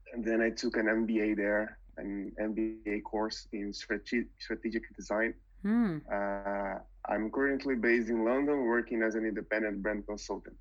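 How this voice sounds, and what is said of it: Brazilian Portuguese accent in English. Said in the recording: “I'm originally from Brazil. Mm-hmm. You can tell by my accent, right?”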